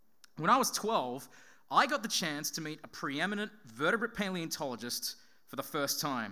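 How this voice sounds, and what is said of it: Usual voice. Nothing is said of it.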